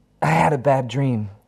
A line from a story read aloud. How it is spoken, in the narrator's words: Harry blurts out suddenly during a gasp of fresh air